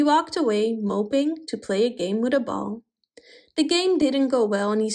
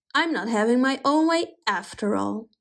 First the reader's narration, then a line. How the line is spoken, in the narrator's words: said Pepin sulkily